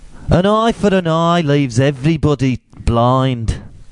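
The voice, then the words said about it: Bad imitation of another person's accent. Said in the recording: “I'm going to do it in his accent. It's not racist. I'm just doing it in Gandhi's accent. ... your shit accent ... Sounded like Thomas the Tank Engine.”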